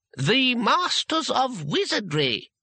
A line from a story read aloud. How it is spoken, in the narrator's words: said the voice haughtily